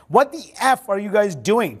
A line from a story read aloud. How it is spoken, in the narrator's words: Trump screamed at Biggs